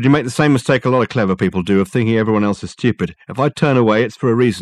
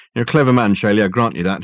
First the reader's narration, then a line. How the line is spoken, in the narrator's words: he said